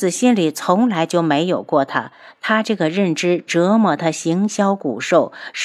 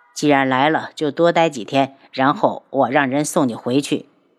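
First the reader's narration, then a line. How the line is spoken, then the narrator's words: Flat, indifferent. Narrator (Chinese): 他只是表情淡淡的道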